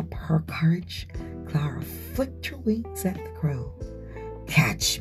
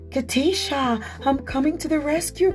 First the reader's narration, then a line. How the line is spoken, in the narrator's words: cried Clara